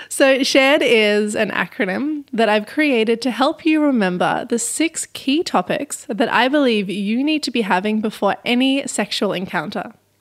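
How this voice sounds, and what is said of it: Non-North American English accent. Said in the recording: “shared for my North Americans, if you can't understand my accent.”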